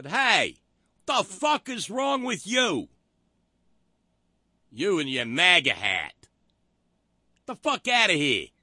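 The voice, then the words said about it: Put-on New York accent. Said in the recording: “That's as close as I can get to doing a New York accent.”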